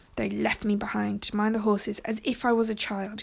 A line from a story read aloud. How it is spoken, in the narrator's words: grumbled to himself